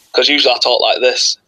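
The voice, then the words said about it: Exaggerated deep accent. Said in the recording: “My accent's really deep”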